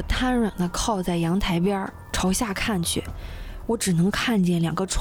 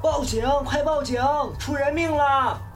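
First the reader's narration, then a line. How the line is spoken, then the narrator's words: Shouting loudly. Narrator (Chinese): 有住户 随即高喊着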